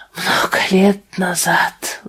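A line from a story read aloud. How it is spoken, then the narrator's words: Sighing. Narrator (Russian): вздохнул незнакомец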